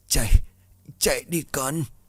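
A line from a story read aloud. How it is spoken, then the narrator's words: Weak woman's voice. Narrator (Vietnamese): Bà nói bằng giọng yếu ớt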